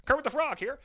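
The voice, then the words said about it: Poor Kermit the Frog voice. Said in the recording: “I don't really do a good Kermit impression at all”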